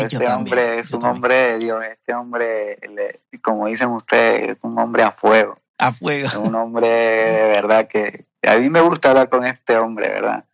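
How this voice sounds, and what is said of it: Spanish with Italian-tinged accent. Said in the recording (Spanish): “en realidad esta no es mi voz, o sea, sí es mi voz, pero eh, ya pegada al italiano. No sé si ustedes logran escuchar el acento que tengo. Eh, porque así no habla un peruano”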